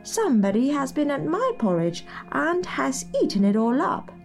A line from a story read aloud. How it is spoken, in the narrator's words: said the little wee bear in his little wee voice